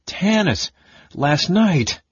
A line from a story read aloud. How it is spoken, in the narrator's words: With a heartsick moan, the big man